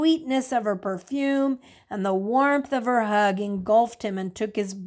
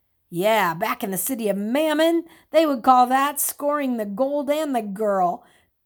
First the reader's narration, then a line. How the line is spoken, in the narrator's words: Thomas said, chuckling